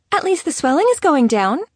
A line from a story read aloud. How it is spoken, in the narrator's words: Serena stated cheerfully